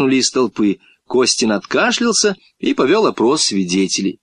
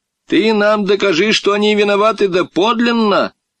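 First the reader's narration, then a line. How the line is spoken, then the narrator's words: Shouting. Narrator (Russian): крикнул Матюшин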